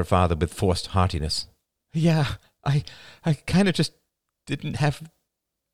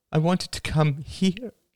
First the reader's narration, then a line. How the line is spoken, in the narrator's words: she said, her voice wobbling